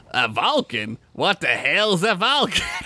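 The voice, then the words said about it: Poor put-on Australian accent. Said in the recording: “Came with an Australian accent. ... That was awful. ... That was terrible.”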